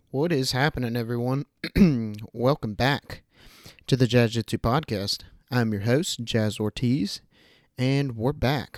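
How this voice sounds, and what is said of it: Stuffy, congested voice. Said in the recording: “tell by my voice, but your boy's been a little stuffy lately”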